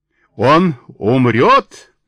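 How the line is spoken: Old woman shrieking shrilly. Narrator (Russian): пронзительно орала старуха

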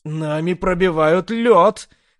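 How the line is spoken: Shouting girl. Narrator (Russian): кричала девушка

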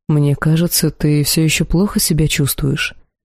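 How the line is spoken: Gentle refusal. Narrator (Russian): мягко отказался господин Илахар

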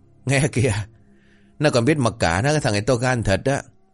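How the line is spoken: Loud laughter. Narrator (Vietnamese): Tên hàng thịt cười lớn

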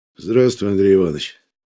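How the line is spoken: General speaking wearily. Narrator (Russian): Устало говорит генерал

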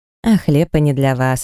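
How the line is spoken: Laughing. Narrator (Russian): рассмеялась

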